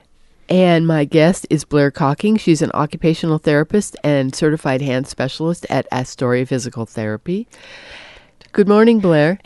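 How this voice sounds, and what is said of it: Congested voice from a cold. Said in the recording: “if you hear it in my voice, it's because I have a cold”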